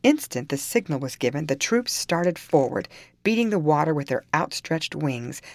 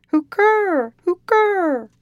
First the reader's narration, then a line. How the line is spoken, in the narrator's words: utter two loud cries in a hollow tone